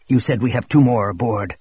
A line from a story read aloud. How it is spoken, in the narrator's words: Showalter said sharply